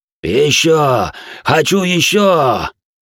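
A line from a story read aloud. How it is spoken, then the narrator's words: Choking, wheezing cultist. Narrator (Russian): Захлебываясь бледно-алой жижей, прохрипел сектант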